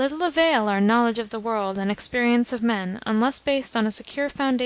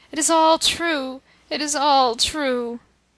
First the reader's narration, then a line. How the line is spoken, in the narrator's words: a groan burst from his lips, and covering his face with his hands, he moaned